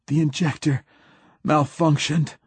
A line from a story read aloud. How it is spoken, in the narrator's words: gasped Hoyt